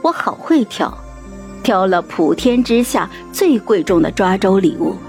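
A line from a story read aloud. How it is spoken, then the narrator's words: Joking. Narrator (Chinese): 开玩笑说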